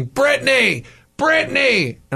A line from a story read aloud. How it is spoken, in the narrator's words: a lady standing on the sidewalk yelling